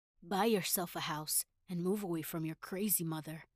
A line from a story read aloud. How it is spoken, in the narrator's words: my ex-husband said